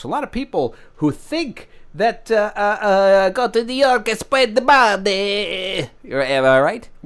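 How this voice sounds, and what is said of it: Put-on foreign accent. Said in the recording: “What what kind of accent were you doing there just now? ... I don't think that's Portuguese.”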